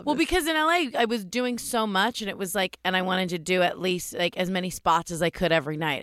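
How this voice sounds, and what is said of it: Raspy voice. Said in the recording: “my voice is real raspy, but it's the end of a long week, and I did a lot of sets.”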